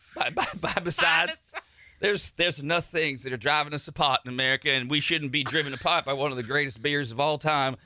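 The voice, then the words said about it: Put-on Cajun-sounding Southern accent. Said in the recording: “Sounds like a Cajun now... I get that Cajun accent”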